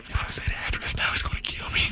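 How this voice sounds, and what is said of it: Whispering. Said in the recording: “What the f*** you whispering for?”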